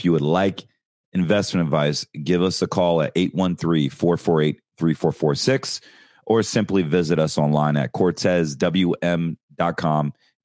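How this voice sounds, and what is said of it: Raspy voice. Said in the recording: “I'm struggling with the allergies ... my voice is really raspy”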